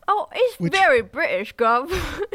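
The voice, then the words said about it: Put-on British accent. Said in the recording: “Perfect accent... Real chameleon... It's British!”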